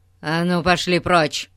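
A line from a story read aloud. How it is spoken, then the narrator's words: Growling again. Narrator (Russian): снова зарычал мистер Гун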